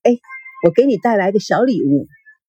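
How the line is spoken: Smiling. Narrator (Chinese): 王曼笑眯眯的说

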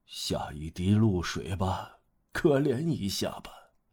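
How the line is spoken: Murmuring. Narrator (Chinese): 一面喃喃地说

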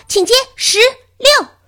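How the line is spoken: Loud. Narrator (Chinese): 科恩医生大声地说

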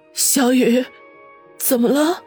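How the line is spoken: Trembling question. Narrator (Chinese): 方心颤声问道

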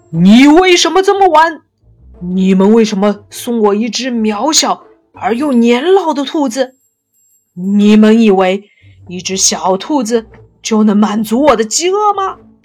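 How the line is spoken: Roaring question. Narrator (Chinese): 他咆哮地问道

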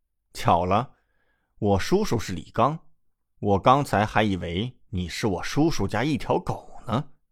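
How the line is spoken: Smiling, flat. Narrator (Chinese): 李准笑笑，淡淡道

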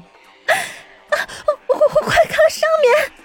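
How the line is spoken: Sudden shout. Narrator (Chinese): 突然，有人大喊道

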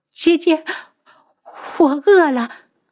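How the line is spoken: Hoarse from crying, sudden. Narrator (Chinese): 花千颜哭得声嘶力竭，然后忽然道

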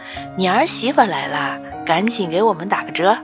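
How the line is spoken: Playful joking. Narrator (Chinese): 排队的阿姨和江小松的妈妈开玩笑

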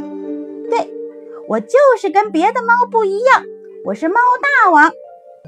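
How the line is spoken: Happy shouting. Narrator (Chinese): 他高兴大叫

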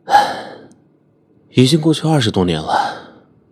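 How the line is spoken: Sighing. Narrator (Chinese): 对方叹息

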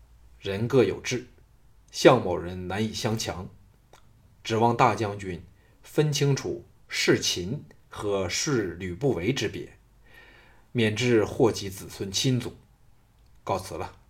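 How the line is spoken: Cool restrained anger. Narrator (Chinese): 心中火发 淡淡的说

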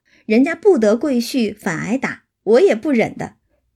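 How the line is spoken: Laughing. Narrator (Chinese): 李纨笑道

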